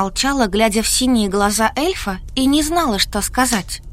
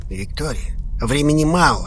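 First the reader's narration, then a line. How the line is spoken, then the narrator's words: Dark elf, through teeth. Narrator (Russian): процедил темный эльф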